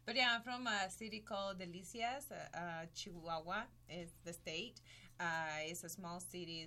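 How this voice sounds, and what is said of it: Mexican accent. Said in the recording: “I'm Mexican, as you can tell by my accent.”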